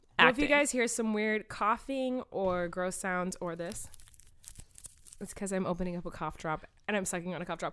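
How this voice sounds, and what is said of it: Voice sounds sick. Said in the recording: “Sorry if I sound different. I'm just so sick.”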